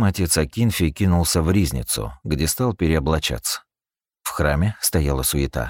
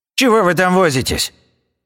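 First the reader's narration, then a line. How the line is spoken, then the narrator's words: Sharp shout. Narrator (Russian): прикрикнул он на служек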